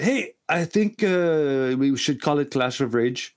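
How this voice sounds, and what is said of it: Put-on Quebecois French accent. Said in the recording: “Spot on. You're French. ... I could be accused of uh, having some uh, some Quebecer uh, accent tendencies”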